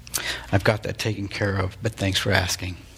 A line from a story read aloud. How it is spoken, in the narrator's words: Trapp was momentarily speechless, and then he said in a quiet voice